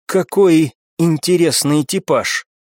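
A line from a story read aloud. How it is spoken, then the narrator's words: Slow, husky voice. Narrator (Russian): Олеся хрипловатым голосом медленно произнесла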